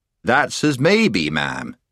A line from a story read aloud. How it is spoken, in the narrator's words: said Puddleglum, very stiffly and on his guard